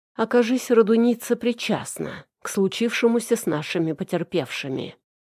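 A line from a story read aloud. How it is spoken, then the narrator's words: Plain. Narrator (Russian): ответил подполковник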